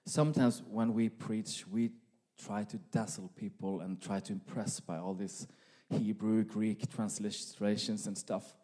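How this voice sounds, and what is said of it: Norwegian accent. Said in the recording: “my Norwegian accent”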